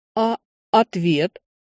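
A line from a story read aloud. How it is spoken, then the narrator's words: Barely squeezed out. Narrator (Russian): едва выдавил из себя он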